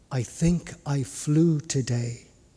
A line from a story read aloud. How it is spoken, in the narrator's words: Willa whispered